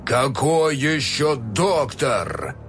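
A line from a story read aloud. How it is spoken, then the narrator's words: Barked. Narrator (Russian): рявкнул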